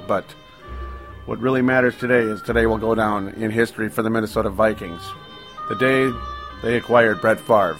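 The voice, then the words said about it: Voice slightly off from a cold. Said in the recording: “my voice is not completely perfect as I'm still fighting off the very, very tail end of a summer cold”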